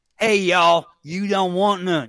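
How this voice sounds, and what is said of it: Put-on Southern drawl. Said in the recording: “You need more drawl... put a little more Georgia in there... see, I can't do Georgia. I can do Mississippi, but I can't do Georgia.”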